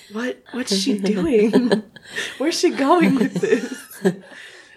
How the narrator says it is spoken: whisper to each other

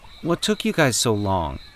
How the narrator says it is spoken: Danny asked in a casual tone, trying his best not to betray the irritation he felt at the delay

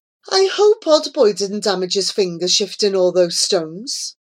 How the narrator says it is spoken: sighed the blind old man

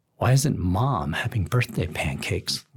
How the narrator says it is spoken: Leo whispers to me

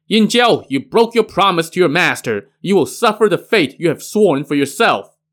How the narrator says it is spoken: Pure Essence, who shouted

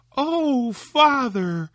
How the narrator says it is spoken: cried Tom

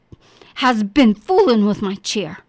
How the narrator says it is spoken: he growled

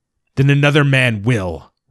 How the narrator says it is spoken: roared the captain

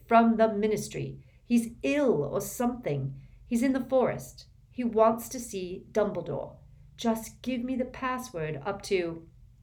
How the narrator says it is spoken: Harry shouted

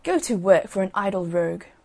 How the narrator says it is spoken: one of them said crossly

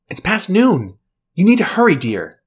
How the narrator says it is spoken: Scarlet gasps in surprise as she takes a step back before shouting

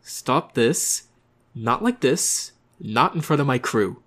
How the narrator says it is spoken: Through clenched teeth, said

